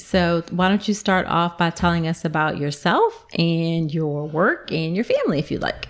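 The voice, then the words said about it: Slight Southern twang. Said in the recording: “I heard your little twang.”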